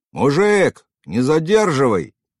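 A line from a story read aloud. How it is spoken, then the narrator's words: Shouting from queue. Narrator (Russian): закричали из очереди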